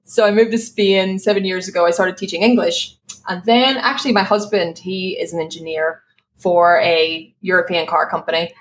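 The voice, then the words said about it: Irish accent. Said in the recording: “I'm from Ireland, just in case people spend the rest of the show being like, what's that accent?”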